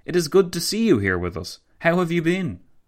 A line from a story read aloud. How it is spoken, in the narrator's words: Kaelender exclaimed with some sincerity